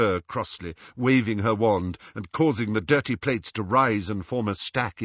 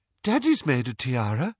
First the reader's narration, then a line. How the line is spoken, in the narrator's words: piped up Luna